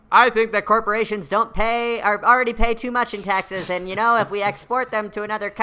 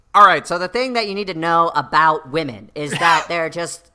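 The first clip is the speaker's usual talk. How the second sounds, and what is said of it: Ben Shapiro impression. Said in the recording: “your best Ben Shapiro impression”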